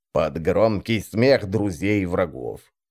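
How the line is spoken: Grumbling. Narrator (Russian): пробурчал Бойл

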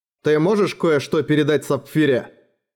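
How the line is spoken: Plain question. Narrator (Russian): спросила Нерагана

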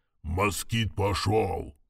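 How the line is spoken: Hoarse voice from afar. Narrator (Russian): донесся хриплый голос с палубы управления ангаром

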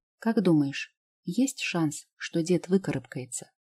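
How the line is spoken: Quiet question. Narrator (Russian): спросила тихо

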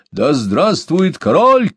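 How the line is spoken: Shouted. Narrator (Russian): крикнул он

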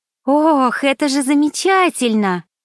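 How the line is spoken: Joyful exclamation. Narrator (Russian): радостно захлопала в ладоши Ринальди

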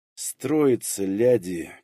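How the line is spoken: Forced-calm hiss. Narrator (Russian): как можно миролюбивее прошипел, досчитав до 10

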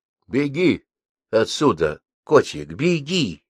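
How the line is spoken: Close whisper. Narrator (Russian): наклонившись к ней, прошептал

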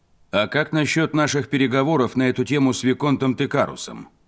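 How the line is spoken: Calm, ringing male voice. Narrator (Russian): Спокойным, звонким голосом спросил крупный мужчина с кожей цвета эбенового дерева

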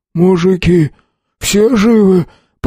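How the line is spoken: Hoarse wheeze from cold. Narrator (Russian): Простуженно просипел он

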